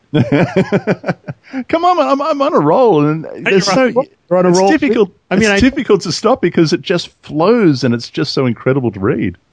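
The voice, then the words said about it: Speaks with a noticeable accent. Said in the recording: “I know people like to hear your beautiful accent ... yeah, I have a beautiful accent.”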